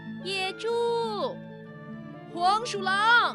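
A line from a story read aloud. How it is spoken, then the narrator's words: Weasel shouting from afar. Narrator (Chinese): 远处的黄鼠狼挥着手跑来了，他大声地喊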